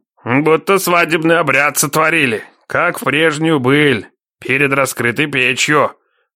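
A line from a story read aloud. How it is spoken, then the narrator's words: Pleased old man's rumble. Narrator (Russian): Довольно прогудел невидимый старичок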